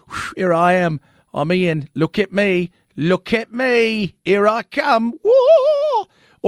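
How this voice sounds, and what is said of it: Put-on British accent. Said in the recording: “Do you think he's got a British accent”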